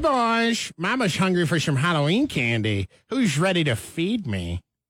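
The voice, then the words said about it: Caitlyn Jenner impression. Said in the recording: “this impersonation theater is that Halloween is on Saturday, so it's about Caitlyn Jenner and asking for some candy ... another one of ... Impersonation Theaters”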